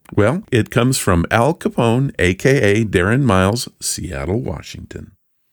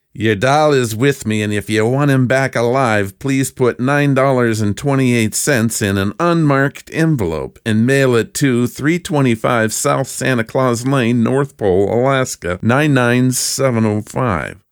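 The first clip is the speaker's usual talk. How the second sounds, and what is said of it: Gangster voice. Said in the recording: “I'm going to do this in my best gangster voice.”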